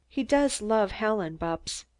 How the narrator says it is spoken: Mary murmured

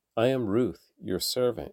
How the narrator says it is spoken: replied

